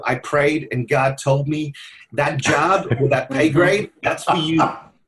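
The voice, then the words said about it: Put-on American accent. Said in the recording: “I love your American great. accent”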